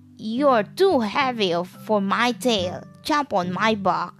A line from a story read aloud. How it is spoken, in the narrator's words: the fox barked